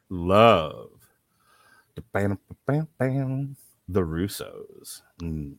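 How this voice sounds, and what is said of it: Mock sexy voice. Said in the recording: “I'm going to start doing them in sexy voice. ... You don't have a sexy voice.”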